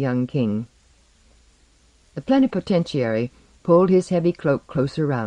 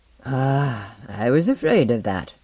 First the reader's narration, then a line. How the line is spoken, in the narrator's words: said the plenipotentiary, sighing